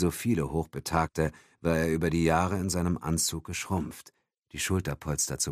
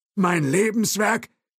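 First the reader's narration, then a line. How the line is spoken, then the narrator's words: Calling out. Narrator (German): rief Thompson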